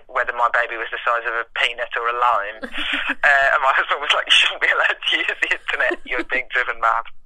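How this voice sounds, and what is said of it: West Midlands accent. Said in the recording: “You've made me miss the West Midlands a bit with your accent.”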